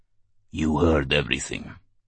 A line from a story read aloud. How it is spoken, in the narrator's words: he said in a husky voice